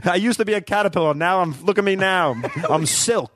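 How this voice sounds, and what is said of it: Brash New York butterfly character voice. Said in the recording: “I do have this like brash New York voice ... A New York, yeah. a queen. ... butterfly? ... say caterpillar in that accent.”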